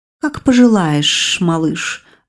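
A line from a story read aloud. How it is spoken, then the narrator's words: Languid coo after laughing. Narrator (Russian): Отсмеявшись, томно проворковала эта девочка-припевочка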